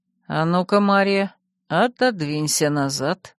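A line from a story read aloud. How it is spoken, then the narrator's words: Calm, facing away. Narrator (Russian): не оборачиваясь, спокойно произнес Финист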